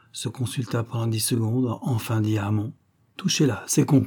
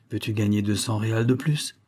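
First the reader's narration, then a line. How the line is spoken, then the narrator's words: Quick, brisk speech. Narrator (French): lui dit-il vivement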